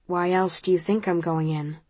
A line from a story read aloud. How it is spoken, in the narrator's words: He asks quietly